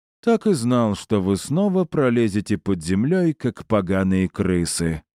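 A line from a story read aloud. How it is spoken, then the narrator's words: Grim smirk. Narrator (Russian): мрачно усмехнулся он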